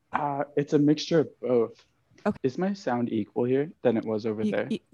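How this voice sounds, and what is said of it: Canadian accent. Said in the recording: “you have a Canadiana accent”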